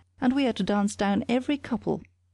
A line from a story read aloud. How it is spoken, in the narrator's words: cried the boy